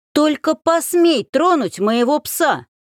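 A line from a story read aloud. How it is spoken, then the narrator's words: Yelling. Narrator (Russian): заорала я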